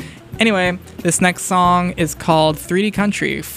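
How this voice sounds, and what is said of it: Usual voice. Nothing is said of it.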